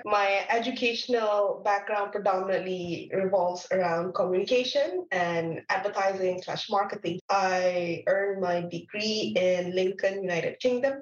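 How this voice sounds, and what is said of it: Malaysian English accent. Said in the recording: “you can tell from my accent that I'm not from Canada. I am from Malaysia.”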